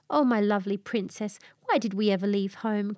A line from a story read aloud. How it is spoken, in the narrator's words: cried